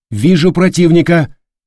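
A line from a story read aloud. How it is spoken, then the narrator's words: Loud lookout report. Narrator (Russian): громко сообщил вперед смотрящий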